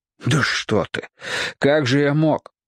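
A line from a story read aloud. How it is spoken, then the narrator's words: Softened sobbing. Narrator (Russian): Егор всхлипнул, но уже как-то размягченно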